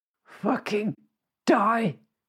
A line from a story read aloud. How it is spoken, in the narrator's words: He groaned